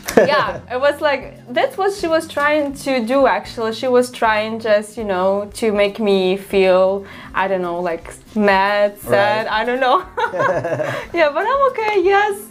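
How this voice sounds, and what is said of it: Non-native foreign accent. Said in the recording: “I came from another country and I'm proud of my accent.”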